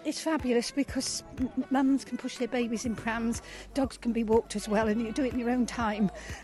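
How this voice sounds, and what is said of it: Out of breath, panting speech. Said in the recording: “I'm a bit out of breath.”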